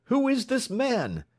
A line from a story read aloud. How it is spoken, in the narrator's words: demanded at the top of his lungs